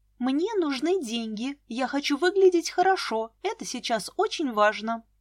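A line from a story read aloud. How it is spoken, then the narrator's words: Calm. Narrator (Russian): спокойно ответила Вика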